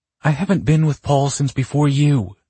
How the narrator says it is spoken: she yelled

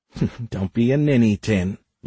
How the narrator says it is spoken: Layla said, chuckling

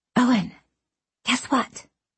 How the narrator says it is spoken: She whispered

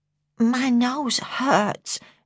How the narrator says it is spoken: she said, her voice muffled by her hand

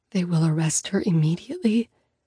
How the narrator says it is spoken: I whisper

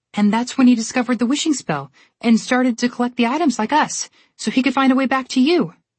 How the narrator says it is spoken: Alex said excitedly

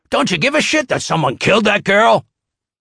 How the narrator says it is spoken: DeMarco shouted

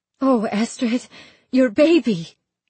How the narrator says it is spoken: I cry, in my panic

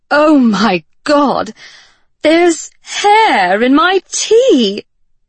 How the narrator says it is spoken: Elise cried out, her tone dripping with revulsion

